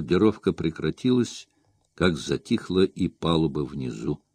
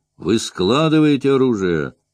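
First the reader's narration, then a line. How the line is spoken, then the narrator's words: Loud question. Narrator (Russian): громко спросил он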